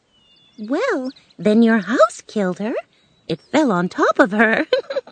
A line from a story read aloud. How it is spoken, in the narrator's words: said the woman with a laugh